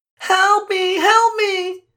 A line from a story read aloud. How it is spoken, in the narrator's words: Darlene screamed